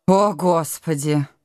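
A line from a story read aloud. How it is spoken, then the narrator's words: Moan. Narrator (Russian): простонала девушка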